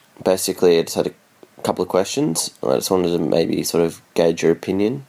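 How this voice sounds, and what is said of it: Australian accent. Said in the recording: “I'm from Australia, if you can't tell from my accent.”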